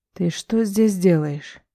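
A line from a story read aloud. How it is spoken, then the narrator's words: Female, through clenched teeth. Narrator (Russian): спрашивает она сквозь зубы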